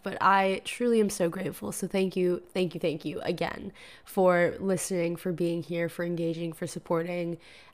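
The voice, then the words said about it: Sick, cracking voice. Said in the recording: “I have a little bit of a cold. I'm a little bit under the weather, so I'm sorry if my voice sounds like this and like it cracks and stuff”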